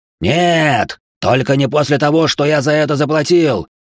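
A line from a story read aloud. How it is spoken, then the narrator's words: Yelling. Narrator (Russian): заорал Коракс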